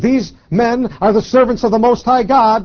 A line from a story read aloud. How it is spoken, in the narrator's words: this girl with the spirit … cried, saying